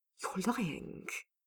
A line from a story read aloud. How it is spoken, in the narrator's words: Dorian hissed